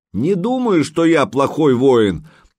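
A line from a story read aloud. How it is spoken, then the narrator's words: Yelled back. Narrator (Russian): заорал в ответ Санек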